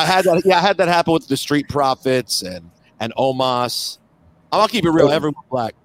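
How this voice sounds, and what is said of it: Usual voice. Nothing is said of it.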